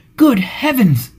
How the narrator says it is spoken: he exclaimed

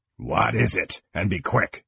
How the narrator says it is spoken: Kang growled

